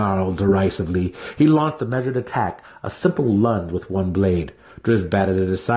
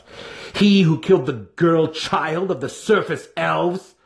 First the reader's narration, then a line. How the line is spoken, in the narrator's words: he cried, an accusation and no compliment